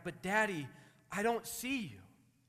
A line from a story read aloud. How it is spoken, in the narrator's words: the boy cried